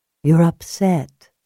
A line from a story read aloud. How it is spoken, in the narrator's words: Julia said softly